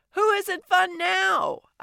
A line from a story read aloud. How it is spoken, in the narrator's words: I shouted at Mina